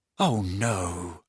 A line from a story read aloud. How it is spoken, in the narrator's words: muttered Harry